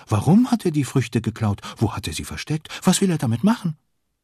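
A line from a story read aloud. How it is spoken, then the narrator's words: Excited overlapping questions. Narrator (German): fragen sie aufgeregt durcheinander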